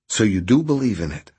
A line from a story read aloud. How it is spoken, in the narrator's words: Arthur asked quickly